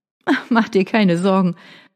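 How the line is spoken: Light laugh. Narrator (German): Vanessa lachte ein wenig

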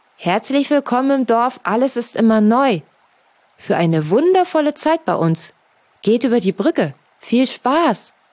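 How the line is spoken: Read aloud. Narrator (German): las er laut vor

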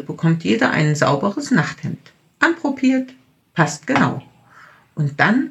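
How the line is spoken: Plain. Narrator (German): sagt Schwester Luise

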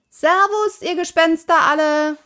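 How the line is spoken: Calling out. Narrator (German): rief Pippi

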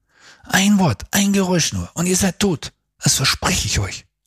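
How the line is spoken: Hissed threat. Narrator (German): zischte er ihnen entgegen

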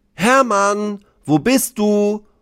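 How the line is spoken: Called out. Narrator (German): ruft er

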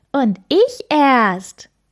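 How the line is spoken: Small creature calling. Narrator (German): ruft das kleine Blaue

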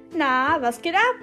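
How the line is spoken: Forced cheerful question. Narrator (German): fragte sie betont fröhlich

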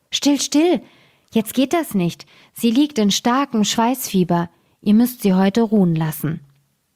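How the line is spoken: Old woman calling out. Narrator (German): rief die Alte

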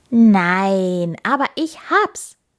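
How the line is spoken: Hare calling out. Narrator (German): rief der Hase

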